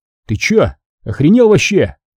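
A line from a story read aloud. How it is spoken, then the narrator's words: Shouting. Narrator (Russian): выкрикнул я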